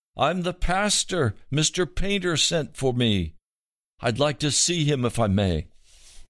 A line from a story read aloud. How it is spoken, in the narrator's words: Over the blast of the wind, the pastor shouted back